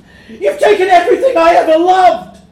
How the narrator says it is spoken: Davy shouts

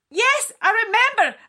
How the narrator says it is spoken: I scream, hoping it will make her stop

